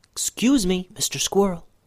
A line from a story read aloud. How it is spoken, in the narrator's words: Benben whispered